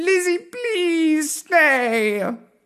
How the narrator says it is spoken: pleaded the cats

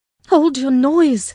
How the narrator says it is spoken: cried I hastily, enraged at her clamorous manner

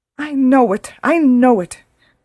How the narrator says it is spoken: cried her mother

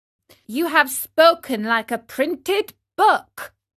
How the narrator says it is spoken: howled the boys bursting with laughter

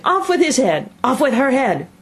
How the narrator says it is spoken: the Queen was in a furious passion, shouting

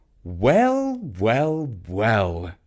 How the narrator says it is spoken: said Dad

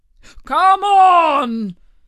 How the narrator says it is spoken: cried the Gryphon

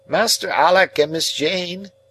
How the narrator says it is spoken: cried one of the nurses to two of the children

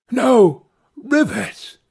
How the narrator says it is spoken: exclaiming

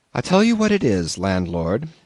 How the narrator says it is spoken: I said quite calmly

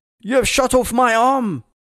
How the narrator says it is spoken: The round ripped through George's arm and he screamed

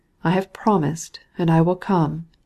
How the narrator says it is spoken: he replied in a melancholy tone

